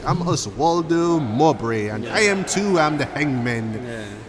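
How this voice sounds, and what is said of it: Put-on distinct English accent. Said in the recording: “He has this really like this distinct English accent.”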